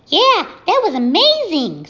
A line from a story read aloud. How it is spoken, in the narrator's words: squeaked the gosling